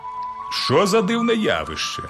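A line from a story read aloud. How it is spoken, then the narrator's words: Professor exclaiming. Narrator (Ukrainian): вигукнув професор орнітології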